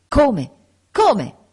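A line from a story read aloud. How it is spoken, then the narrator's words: Exclamation. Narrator (Italian): esclamò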